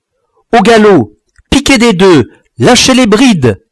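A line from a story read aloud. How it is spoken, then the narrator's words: Shouting. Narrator (French): criai-je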